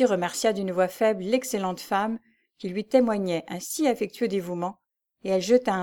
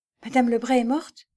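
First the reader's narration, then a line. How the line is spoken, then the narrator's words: Stammering. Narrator (French): balbutia Lucie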